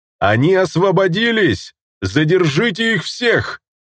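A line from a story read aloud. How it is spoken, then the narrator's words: Yelling. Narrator (Russian): Завопил он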